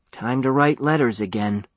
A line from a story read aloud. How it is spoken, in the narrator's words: said Huey with a sigh